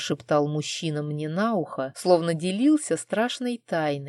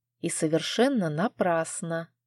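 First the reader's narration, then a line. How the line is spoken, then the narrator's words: Whispered reply. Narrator (Russian): прошептала я в ответ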